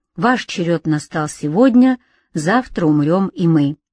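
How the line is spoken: Calm. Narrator (Russian): Увозимым говорили спокойно

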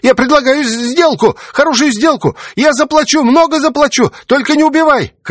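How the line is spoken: Desperate wailing. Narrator (Russian): Крысюк отчаянно вопит

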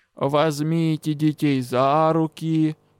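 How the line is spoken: Weary habitual command, high priest. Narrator (Russian): привычно и устало приказал главный жрец

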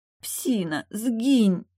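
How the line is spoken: Hoarse old woman. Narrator (Russian): прохрипела вдова

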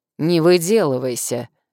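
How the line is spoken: Barked, stranger. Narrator (Russian): рявкнул незнакомец

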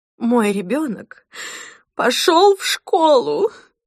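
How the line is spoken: Woman sobbing. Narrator (Russian): рыдала Мадлен

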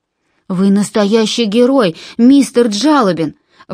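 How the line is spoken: Exclaimed. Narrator (Russian): воскликнул Джон

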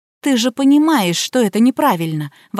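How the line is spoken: Desperate exclamation. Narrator (Russian): воскликнула я, делая отчаянную попытку убедить

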